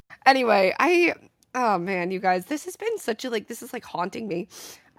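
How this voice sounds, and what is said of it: Cracking, sick-sounding voice. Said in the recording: “my voice is cracking... low-key kind of sick last week”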